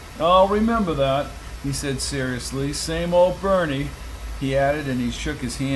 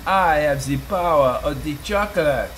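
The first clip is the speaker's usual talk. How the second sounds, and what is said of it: Put-on French accent. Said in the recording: “he said with a French accent”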